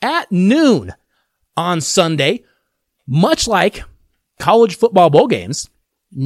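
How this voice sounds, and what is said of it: Usual voice. Nothing is said of it.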